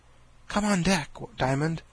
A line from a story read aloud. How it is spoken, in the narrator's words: she whispered in his ear